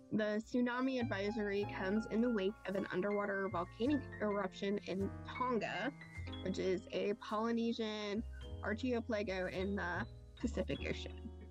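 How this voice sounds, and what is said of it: Kentucky accent. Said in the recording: “It's my Kentucky accent”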